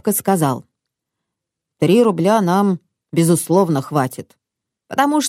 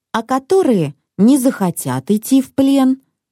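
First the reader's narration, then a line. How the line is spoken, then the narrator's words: Timid question. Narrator (Russian): робко спросил я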